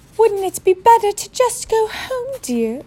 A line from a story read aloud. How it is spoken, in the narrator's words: Aunt Petunia suggested timidly